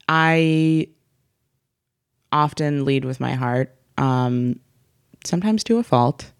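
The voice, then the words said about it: Exaggerated vocal fry. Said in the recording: “Should I do some vocal fry?”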